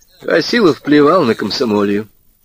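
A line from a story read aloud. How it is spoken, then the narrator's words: Sad. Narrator (Russian): грустно сказал Женька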